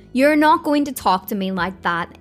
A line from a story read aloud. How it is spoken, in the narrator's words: Don shouting